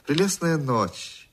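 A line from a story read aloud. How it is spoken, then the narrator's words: Sweet happy woman's voice. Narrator (Russian): сказала дама сладким, счастливым голосом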